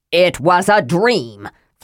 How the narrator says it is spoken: Flint said loudly

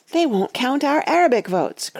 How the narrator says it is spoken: cried Betsy, leaping frantically about

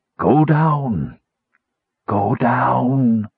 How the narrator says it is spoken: rasped the phantom voice

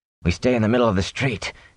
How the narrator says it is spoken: he said hoarsely

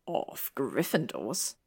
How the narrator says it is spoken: Draco added under his breath

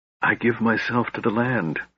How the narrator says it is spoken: he whispered

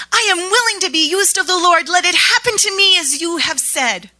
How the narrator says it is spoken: I blurted out

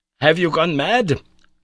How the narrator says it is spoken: cried, shaking me

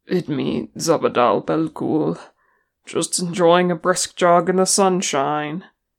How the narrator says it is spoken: he croaked, never pausing in his stride

